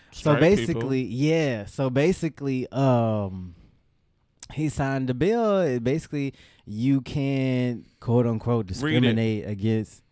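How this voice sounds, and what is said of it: Put-on Texan accent. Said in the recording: “I just read it in my Texan accent.”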